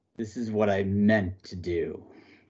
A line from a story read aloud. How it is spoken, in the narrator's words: snarl